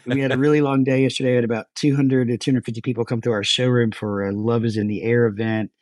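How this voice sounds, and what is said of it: Tired-sounding voice. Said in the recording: “Dude, I'm so freaking tired ... You sound a little tired ... I am tired ... is tired today”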